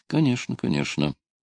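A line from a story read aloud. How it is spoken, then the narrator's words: Weary mutter. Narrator (Russian): пробормотал Луис, которому эта плоская полицейская острота уже оскомину набила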